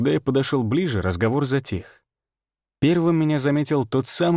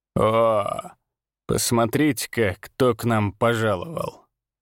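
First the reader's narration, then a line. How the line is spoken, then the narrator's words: Drawl. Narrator (Russian): протянул он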